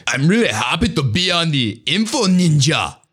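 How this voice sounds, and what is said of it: Weak German-sounding impression of another person. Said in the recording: “I don't do a great Arnold impression ... I told you it wasn't a good impression ... He's kind of just a typical German ... My accents are a little bit off”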